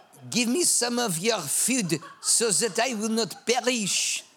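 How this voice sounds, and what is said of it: Put-on French accent. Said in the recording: “I've got to do it in a French accent.”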